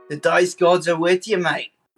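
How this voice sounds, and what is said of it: Put-on accent. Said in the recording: “I'm totally getting used to this accent.”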